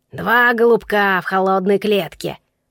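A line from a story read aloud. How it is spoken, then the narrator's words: Croaking recitation. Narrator (Russian): продекламировал он своим каркающим голосом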